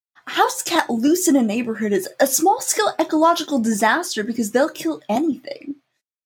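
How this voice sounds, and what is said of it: Impression of Spencer Reed. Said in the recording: “do a Reed impersonation? Because ... got a really good one.”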